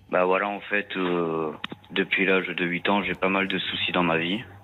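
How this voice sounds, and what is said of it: Slight southern French accent. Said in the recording (French): “vous avez un petit accent... oui, du sud”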